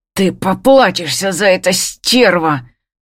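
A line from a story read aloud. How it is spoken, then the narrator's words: Hissing, menacing. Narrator (Russian): шипит, добавляет грозно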